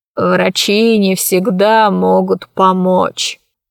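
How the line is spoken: Sigh. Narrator (Russian): вздохнул он

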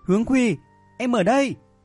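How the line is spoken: Surprised, joyful call. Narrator (Vietnamese): Nữ sĩ quan cảnh sát vừa ngạc nhiên vừa vui mừng, nàng vội kêu lên

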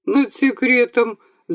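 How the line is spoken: Laughing. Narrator (Russian): засмеялся Архип Иванович

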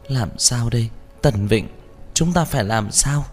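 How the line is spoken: Trembling sobs. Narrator (Vietnamese): Lâm Phàm run rẩy khóc nức nở

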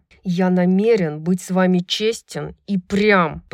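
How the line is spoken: Growling. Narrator (Russian): прорычал Хант

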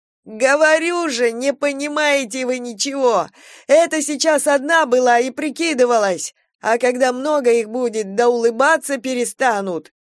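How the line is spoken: Loud sudden sobbing. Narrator (Russian): Он вдруг разрыдался сходу и громко

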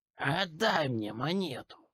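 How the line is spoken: Purr. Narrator (Russian): Промурлыкал

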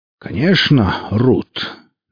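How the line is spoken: Haughty pronouncement. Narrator (Russian): надменно рек Велес

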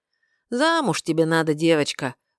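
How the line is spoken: Sigh. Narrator (Russian): вздохнул трактирщик

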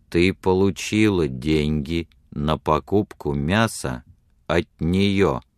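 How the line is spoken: Slow deliberate speech. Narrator (Russian): медленно произнес он

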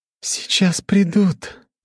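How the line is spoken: Gentle female voice. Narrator (Russian): нежным голосом произнесла эльфийка

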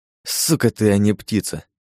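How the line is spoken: Hissed through teeth. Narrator (Russian): Прошипел я сквозь зубы

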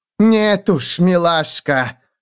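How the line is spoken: Barked. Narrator (Russian): рявкнула мадам Матильда

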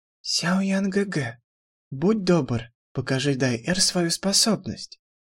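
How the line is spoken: Gentle yet demanding. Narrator (Russian): По-прежнему нежным голоском она требовательно попросила

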